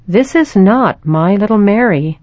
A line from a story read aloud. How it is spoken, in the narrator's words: said